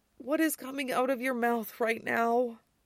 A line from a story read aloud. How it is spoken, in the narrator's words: Peter said wearily